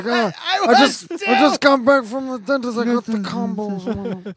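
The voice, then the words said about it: Mumbling mafia-boss voice, muffled mouth. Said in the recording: “Do a mafia impression with the cotton balls in your mouth ... Dom DeLuise's portrayal of Marlon Brando”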